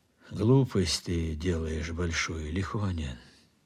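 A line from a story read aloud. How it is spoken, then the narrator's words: Said lazily. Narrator (Russian): говорил лениво Платонов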